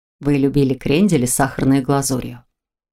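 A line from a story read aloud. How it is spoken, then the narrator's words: Gentle reminder. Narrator (Russian): Мягко напомнил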